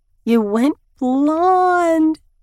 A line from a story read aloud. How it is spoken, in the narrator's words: she squeaks